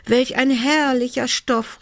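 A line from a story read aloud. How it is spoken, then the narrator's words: Called out. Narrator (German): rief sie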